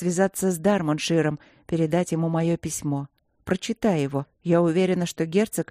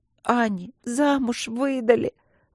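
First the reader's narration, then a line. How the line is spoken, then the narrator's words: Loud sobbing. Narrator (Russian): громко зарыдала Каролинка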